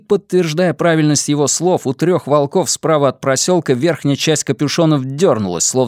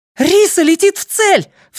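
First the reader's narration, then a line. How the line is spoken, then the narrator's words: Cried out. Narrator (Russian): вскрикнула Розалита Муньос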